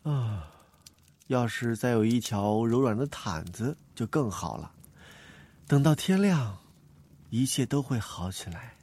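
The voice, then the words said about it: Quiet, soft murmur to oneself. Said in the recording (Chinese): “小声的对自己说着”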